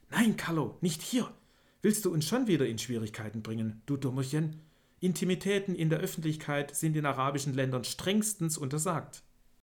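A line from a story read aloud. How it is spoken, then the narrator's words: Hiss. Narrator (German): zischte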